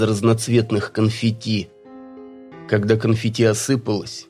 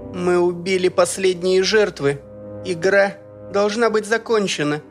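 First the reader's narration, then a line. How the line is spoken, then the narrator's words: Brazen shout. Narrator (Russian): нагло крикнула Сандей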